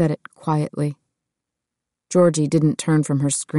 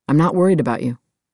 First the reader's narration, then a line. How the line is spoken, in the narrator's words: Seth said